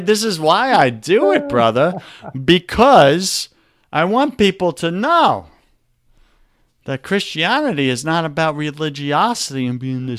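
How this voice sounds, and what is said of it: Exaggerated New York accent. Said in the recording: “my New York accent I accentuate”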